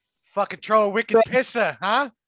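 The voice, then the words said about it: Put-on Boston accent. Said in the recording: “I'd rather have a Boston accent.”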